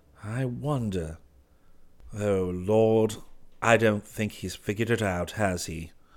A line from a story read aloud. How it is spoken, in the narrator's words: muttering